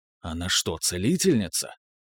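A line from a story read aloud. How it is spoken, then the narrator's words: Whisper. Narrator (Russian): шепнул я Элеоноре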